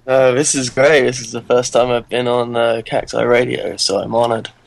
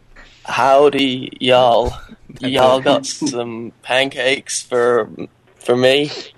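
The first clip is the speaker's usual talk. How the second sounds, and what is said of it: British speaker fakes American accent. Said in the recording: “Don't do an American accent ... Be like, howdy y'all. That's an American accent.”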